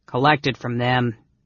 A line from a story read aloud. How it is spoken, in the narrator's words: Caramon growled